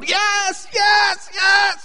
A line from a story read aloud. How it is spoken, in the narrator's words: yell